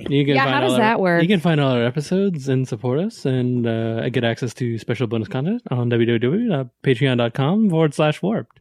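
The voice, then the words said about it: Fast-talking radio commercial announcer voice. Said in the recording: “What was that voice you were doing right now? ... That was my fast radio. ... What was that guy who did the fast talking in the 80s? ... like commercials.”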